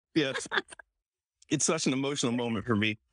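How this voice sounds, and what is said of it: Choked-up, tearful voice. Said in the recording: “I'm getting choked up.”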